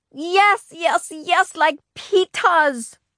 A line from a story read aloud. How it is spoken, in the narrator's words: Fudge hollered